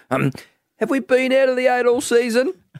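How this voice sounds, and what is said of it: Ross Lyon impression. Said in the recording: “It's a good Ross Lyon impersonation ... It's very good.”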